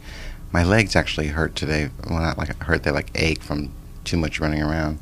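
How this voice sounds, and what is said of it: Tired-sounding voice. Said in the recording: “as you can probably tell from my voice, I'm very tired.”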